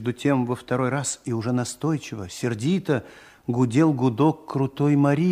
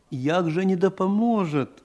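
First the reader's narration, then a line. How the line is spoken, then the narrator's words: Pleading question. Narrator (Russian): умоляющим голосом спросил Андрей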